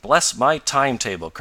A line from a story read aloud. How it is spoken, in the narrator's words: cried Mr